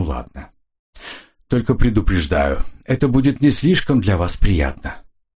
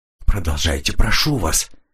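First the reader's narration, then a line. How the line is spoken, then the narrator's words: Quiet. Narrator (Russian): тихо сказала Энн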